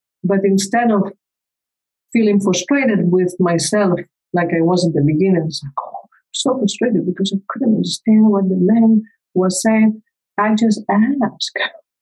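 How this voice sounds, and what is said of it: Spanish-accented English. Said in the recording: “I grew up in Spain. I came here when I was 25. So even English is not my first language, as you can tell.”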